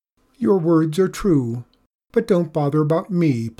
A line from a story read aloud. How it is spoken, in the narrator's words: pleaded the visitor